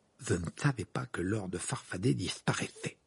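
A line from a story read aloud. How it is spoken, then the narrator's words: Mumble. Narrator (French): marmonna Ron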